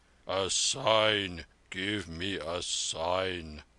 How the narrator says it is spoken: thundered the old soldier suddenly

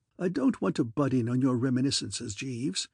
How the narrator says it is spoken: I said coldly

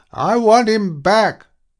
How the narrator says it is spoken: she shouted

